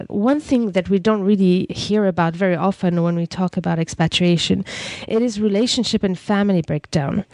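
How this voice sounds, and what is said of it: Congested voice from a cold. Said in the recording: “my voice is a little bit funny as I catch the cold”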